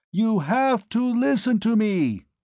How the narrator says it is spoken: I roared in her ear

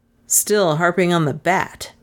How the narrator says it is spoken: he said with a little sneer

